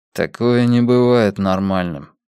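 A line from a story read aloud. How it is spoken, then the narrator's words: Through gritted teeth. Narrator (Russian): сквозь зубы ответил Йона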